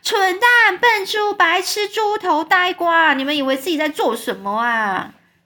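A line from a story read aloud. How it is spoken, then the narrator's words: Loud shout. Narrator (Chinese): 对着那些云朵人放声大叫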